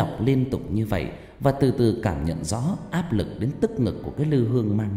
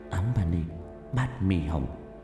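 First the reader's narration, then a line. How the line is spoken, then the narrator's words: Urgent muttered chant. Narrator (Vietnamese): Tình thế nguy cấp, miệng lẩm bẩm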